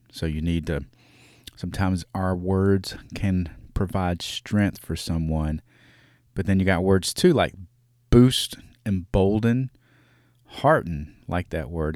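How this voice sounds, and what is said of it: Regional dialect. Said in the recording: “if you can't understand my dialect.”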